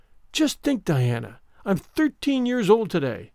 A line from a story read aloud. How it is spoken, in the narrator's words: remarked Anne in an awed voice